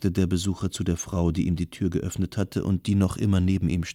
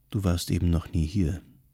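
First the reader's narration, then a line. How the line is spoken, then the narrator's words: Gentle answer. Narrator (German): antwortete sie sanft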